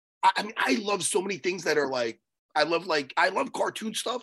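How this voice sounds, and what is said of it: Worn-out, strained voice. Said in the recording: “This is why my voice is done.”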